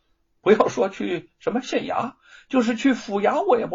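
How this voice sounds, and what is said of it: Usual voice. Nothing is said of it.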